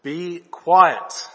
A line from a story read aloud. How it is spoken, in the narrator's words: Jesus said sternly